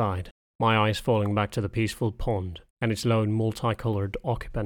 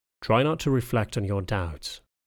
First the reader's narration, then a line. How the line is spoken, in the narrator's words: spoke in a calm voice